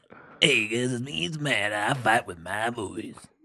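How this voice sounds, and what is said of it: Cheesy morning radio DJ voice. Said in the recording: “You sound like the worst radio DJ in the morning... It started as Casey Kasem and then turned into a sleazeball.”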